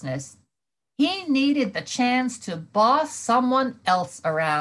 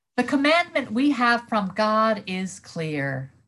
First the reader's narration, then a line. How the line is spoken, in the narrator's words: John says